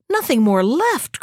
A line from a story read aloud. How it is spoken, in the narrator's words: cried the hermit